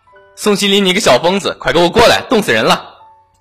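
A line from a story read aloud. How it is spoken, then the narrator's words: Yelling from afar. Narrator (Chinese): 富阳在马路对面吼过来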